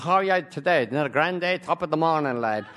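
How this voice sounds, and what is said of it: Put-on stage Irish accent. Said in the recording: “the Irish ... there are Americans who put on that accent.”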